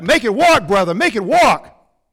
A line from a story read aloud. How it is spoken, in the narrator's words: People started yelling back